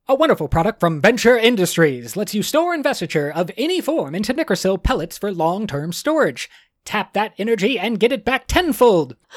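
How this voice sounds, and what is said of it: Old-timey announcer voice. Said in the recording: “I'm going to do it in old-timey announcer voice.”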